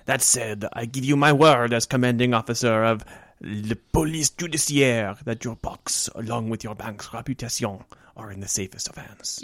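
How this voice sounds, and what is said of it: Put-on accent drifting toward Spanish. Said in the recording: “Your accent slipped into Antonio Banderas there for a second. ... I'm not good at maintaining accents very long.”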